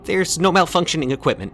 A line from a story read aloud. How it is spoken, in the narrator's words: the man said urgently